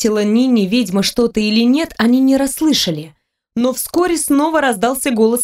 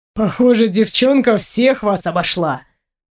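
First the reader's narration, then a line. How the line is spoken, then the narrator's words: Snorting, amused. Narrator (Russian): хмыкнул Долгов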